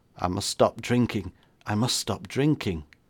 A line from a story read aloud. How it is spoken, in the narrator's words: The Major muttered